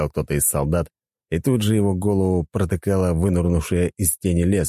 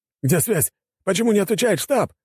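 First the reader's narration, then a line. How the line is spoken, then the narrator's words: Several voices shouting. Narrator (Russian): кричали остальные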